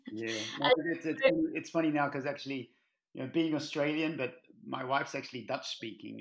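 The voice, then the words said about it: Mixed Australian accent. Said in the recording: “I left Australia more than 25 years ago. So my accent's a little bit mixed up now ... sometimes people even accuse me of being South African now”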